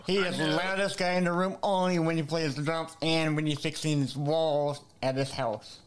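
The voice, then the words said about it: Voice like a Muppet character. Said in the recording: “my voice sounds like Scooter from the Muppets”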